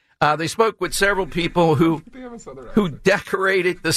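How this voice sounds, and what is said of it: Usual voice. Nothing is said of it.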